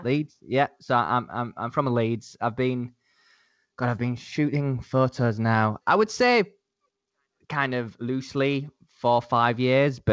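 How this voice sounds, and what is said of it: Northern English Leeds accent. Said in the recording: “I don't know if you guys can tell from my accent, but I'm not from London. I'm from the north of England, a city called... Leeds”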